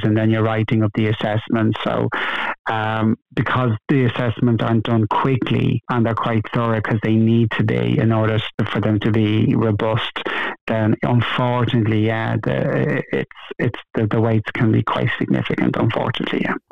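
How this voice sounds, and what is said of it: Dublin Irish accent. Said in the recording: “A dub living in London ... There's no getting away with that accent, is there?”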